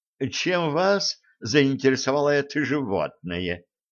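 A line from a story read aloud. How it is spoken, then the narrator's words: Plain. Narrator (Russian): спросил Лепестков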